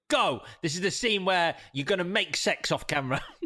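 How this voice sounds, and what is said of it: Imitates another person's voice. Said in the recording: “That's Steven Soderbergh again. That's my Steven Soderbergh impression.”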